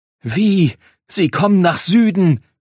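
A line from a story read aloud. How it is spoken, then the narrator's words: Furious loud shout. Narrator (German): schrie Ryun erneut mit der Stimme und so laut wie ein wütender Himmelsfisch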